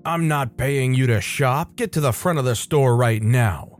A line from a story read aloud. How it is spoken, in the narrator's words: snarling man's face less than an inch from mine and he says